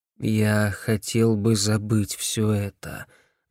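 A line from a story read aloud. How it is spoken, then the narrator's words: Gloomy. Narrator (Russian): мрачно сказал Джим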